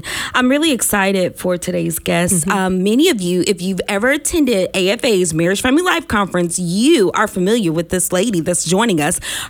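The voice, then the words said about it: Rough, sick-sounding voice. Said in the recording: “Pardon my voice, y'all. I'm recovering from a sinus infection.”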